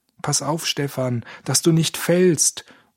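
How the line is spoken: Calling out. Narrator (German): rief Georg

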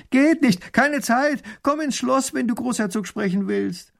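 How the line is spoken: Calling back. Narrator (German): Erich ruft zurück

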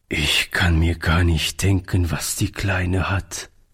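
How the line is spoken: Sad. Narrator (German): sagte Oliver traurig

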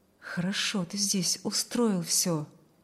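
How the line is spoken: Low undertone. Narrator (Russian): проговорил он вполголоса

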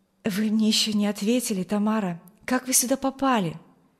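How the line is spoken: Pleading young man's question. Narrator (Russian): Умоляющим тоном спросил ее юноша

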